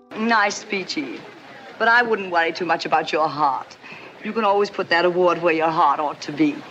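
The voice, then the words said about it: Old-timey classic Hollywood accent. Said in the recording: “this old-timey accent, whether in black and white movies or in the TV commercials of my youth”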